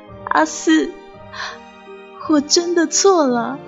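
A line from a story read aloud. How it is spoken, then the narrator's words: Sobbing woman. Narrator (Chinese): 那个美人哭哭啼啼的说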